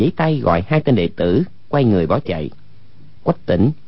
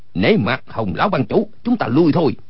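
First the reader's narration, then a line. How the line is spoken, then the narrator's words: Urgent call. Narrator (Vietnamese): kêu lên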